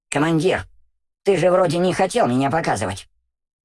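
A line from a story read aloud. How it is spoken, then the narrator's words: Squeaky voice. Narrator (Russian): пропищал Улгол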